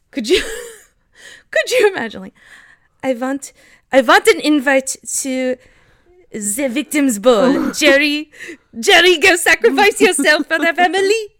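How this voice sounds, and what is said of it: Badly done put-on accent. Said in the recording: “We're going to get canceled for that accent. That was so bad.”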